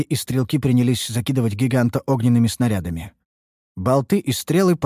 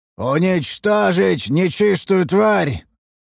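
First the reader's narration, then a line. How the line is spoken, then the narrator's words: Roaring commander. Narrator (Russian): проревел один из командиров обороны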